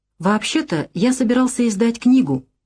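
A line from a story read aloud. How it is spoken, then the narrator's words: Uncertain voice. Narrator (Russian): неуверенно сказал Аркадий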